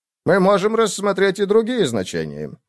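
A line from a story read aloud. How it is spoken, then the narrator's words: Cheerful. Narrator (Russian): весело продолжил Дэнс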